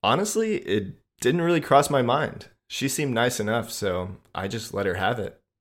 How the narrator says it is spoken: I said

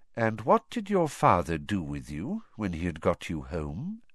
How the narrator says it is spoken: said Dumbledore quietly

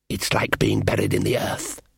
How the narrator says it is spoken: hissed the elf

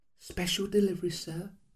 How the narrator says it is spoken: she whispered

